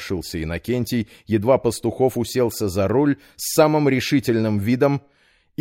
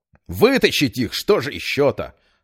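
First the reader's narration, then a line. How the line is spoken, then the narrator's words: Snapped back. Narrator (Russian): огрызнулся Петр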